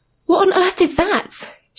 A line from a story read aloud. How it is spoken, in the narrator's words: she exclaimed